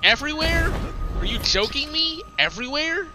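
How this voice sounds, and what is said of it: Sarcastic mock disbelief. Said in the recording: “I'm just joking. Like I'm being sarcastic.”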